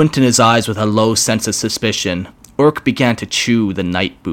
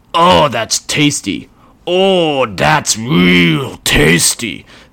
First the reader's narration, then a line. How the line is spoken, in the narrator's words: the orc bellowed